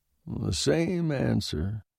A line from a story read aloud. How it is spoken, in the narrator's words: he muttered, more to himself than to me